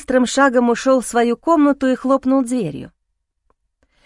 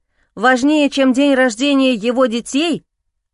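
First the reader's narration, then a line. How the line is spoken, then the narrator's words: Angry voice. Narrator (Russian): рассерженным голосом сказал Денис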